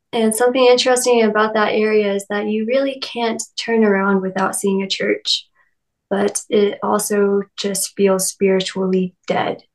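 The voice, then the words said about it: Kentucky Southern American accent. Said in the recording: “I'm from Lexington, Kentucky ... I don't know if you've already picked up on the accent yet, um, but I am from the Bible Belt.”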